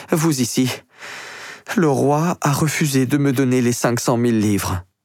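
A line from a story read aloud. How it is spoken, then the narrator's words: Queen exclaiming. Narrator (French): s'écrie la reine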